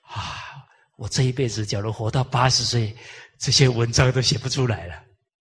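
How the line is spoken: Sighing exclamation. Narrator (Chinese): 我感叹着

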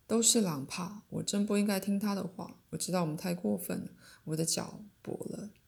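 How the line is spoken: Fearful and angry. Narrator (Chinese): 在顿然而生的恐惧、愤怒之下，情绪立刻换成话

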